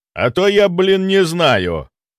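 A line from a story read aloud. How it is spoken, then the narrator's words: Snapping. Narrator (Russian): огрызнулся Чарльз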